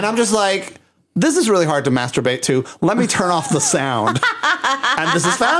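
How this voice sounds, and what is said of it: Usual voice. Nothing is said of it.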